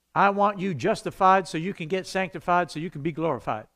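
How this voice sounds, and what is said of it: Put-on southern preacher accent. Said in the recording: “Why am I using a southern accent when I do that? ... that's like a southern preacher”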